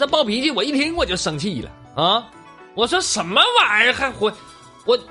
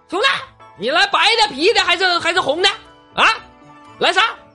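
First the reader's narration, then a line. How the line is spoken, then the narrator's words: Loud bellowing. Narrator (Chinese): 扯脖子喊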